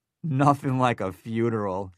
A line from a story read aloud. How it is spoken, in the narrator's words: he said and laughed